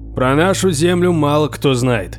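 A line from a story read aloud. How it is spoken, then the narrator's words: Booming, thundering voice. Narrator (Russian): прогремел Торвальд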